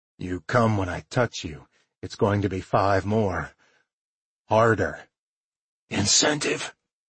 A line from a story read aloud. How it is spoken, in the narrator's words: he rasped